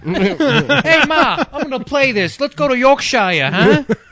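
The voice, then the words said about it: Put-on Staten Island accent. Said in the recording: “You just had like a Staten Island accent”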